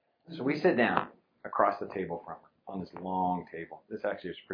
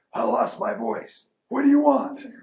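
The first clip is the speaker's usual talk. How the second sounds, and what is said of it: Hoarse quoted voice. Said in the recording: “hoarse voice”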